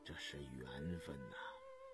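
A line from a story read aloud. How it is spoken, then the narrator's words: Moved murmur. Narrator (Chinese): 心中一动 喃喃地说道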